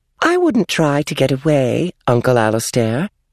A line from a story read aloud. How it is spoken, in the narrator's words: she said sweetly